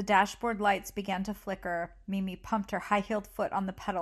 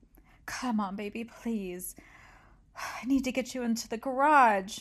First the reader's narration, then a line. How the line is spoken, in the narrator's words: Mimi pleaded